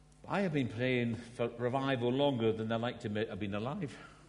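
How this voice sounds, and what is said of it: Scottish accent. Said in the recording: “I'm Scottish. This is an accent. It's not a speech impediment. This is the way everyone where I come from speaks, although this is the refined version of it”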